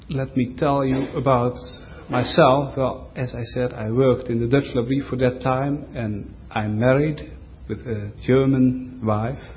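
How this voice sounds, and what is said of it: Non-native accented English. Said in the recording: “you must get used to my accent”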